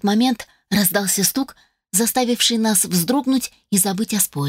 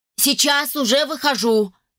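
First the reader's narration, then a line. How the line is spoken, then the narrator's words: Shout. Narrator (Russian): крикнул Финис Монрой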